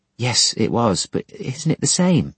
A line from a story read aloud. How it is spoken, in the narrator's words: she timidly asked